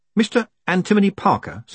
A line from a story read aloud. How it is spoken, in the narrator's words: said Moist urgently